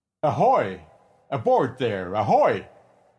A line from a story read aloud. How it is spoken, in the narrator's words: he shouted time after time